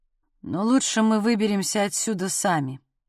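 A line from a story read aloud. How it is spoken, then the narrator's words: Flat colorless voice. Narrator (Russian): бесцветным голосом произнес Вилли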